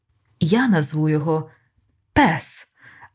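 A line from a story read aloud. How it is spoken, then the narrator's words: Joyful. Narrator (Ukrainian): Радісно підсумував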